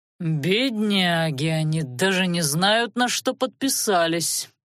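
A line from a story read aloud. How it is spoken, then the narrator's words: Sarcastic drawl. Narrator (Russian): с сарказмом протянул Анхайлик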